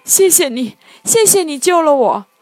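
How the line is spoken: Hurried thanks. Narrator (Chinese): 小灰兔连忙道谢

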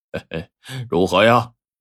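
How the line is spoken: Laughing. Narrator (Chinese): 黑和尚冲着二狗笑道

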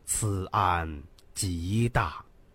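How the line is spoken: Slow, measured. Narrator (Chinese): 他缓缓的说道

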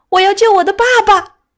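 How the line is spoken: Child's desperate cry. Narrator (Chinese): 一声绝望的哀叫 一个孩子 嘴里叫着

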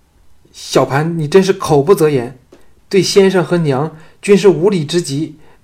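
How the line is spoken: Flustered, angry scolding. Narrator (Chinese): 倪夫人……惊羞焦急，……怒斥道

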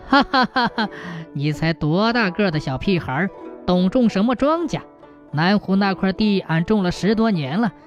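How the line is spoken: Hearty laughter. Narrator (Chinese): 大有哈哈大笑…说

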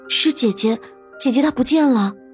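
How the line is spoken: Anxious, breathless. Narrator (Chinese): 急得气喘吁吁，开口道

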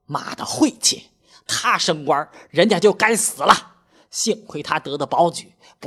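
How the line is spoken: Angry. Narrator (Chinese): 怒冲冲地说道

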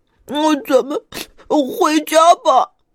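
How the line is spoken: Crying. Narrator (Chinese): 小胖哭着说

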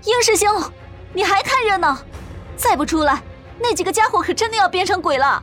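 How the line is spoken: Calling out. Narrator (Chinese): 程雪也开始叫蓝飞鹰

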